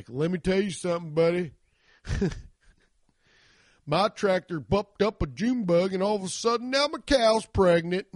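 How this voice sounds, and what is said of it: Exaggerated rural hillbilly accent. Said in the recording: “the guy talks like this ... No one has that accent. ... So he's like new hillbilly”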